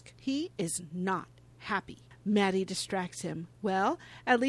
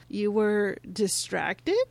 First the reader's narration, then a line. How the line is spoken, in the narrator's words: Patrick stammers